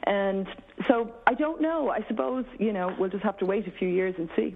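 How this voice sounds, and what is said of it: Irish accent. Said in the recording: “It's amazing how you've developed that accent in just 3 years ... Has gone back to be more Irish again”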